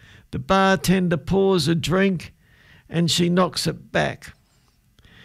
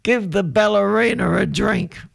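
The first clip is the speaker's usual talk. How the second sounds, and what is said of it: Imitated drunk voice. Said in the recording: “do a drunk imitation”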